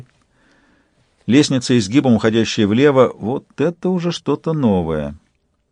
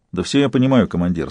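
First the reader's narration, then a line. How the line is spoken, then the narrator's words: Calm. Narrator (Russian): сказал Шидарис спокойно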